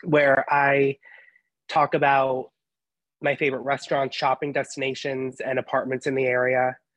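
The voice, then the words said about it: Voice affected by a cold. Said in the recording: “Excuse my voice. ... I have a little bit of a, a cold”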